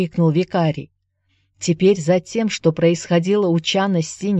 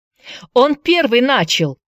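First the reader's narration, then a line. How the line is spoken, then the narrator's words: Shout. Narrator (Russian): закричал Джеймс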